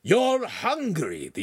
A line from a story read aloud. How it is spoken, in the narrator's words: the enactor shouted back